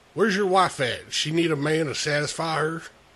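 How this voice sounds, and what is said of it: Put-on redneck accent. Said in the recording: “I'm tired of talking like you... I'm tired of talking like a dumb fucking redneck, so I'm going to do my regular voice.”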